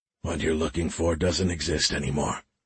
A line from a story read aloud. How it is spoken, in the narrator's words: he said in a scratchy whisper